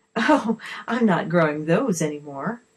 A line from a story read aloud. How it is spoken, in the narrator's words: the lady laughed